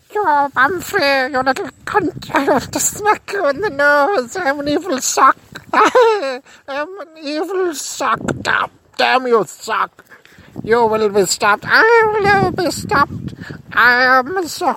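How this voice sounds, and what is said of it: Strange accent, character voice. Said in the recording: “swearing prolifically at me in a strange accent”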